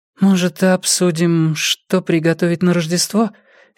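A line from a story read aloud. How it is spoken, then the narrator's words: Hesitant suggestion. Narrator (Russian): неуверенно предложила Анбрид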